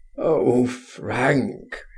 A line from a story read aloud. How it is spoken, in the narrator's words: he groaned